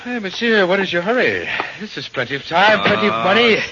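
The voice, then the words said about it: Put-on French accent. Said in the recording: “You don't have to put on that accent.”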